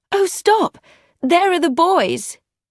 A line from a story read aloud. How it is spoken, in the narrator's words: Emma cried